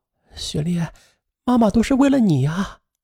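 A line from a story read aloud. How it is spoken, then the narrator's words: Crying. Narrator (Chinese): 刘慕飞哭着说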